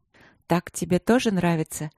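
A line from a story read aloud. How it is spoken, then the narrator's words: Soft half-voice. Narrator (Russian): спросила в полголоса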